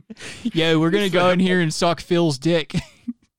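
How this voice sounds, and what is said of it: Central Pennsylvania accent. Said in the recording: “They're just doing like the perfect like central PA accent.”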